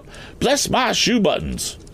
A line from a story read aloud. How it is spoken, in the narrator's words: he cried out